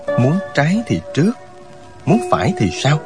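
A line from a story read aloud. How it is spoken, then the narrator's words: Muttering. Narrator (Vietnamese): Miệng chàng lẩm bẩm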